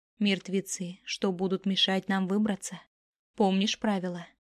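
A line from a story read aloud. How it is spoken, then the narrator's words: Heavy sigh, weary. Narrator (Russian): Тяжело вздохнув, ответила Мизуки вместо Араи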